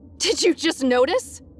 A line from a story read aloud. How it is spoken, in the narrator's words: she snapped hysterically